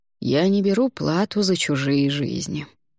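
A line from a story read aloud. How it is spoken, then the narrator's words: Calm reply, elder. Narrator (Russian): спокойно ответил старейшина Савойского монастыря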